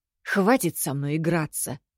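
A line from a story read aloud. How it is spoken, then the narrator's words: Strained, forced out. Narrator (Russian): выдавила из себя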